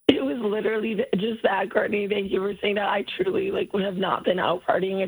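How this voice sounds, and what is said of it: Hoarse, nearly lost voice. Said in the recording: “I lost my voice ... your voice sounds that way”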